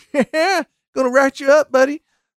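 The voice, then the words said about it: Put-on Southern accent, parody cop. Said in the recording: “the Southern accent there. I'm making a parody of the movies that make fun of cops like that.”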